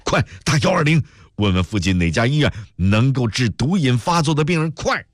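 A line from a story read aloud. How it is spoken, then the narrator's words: Shouting while running. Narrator (Chinese): 史天雄一边跑一边喊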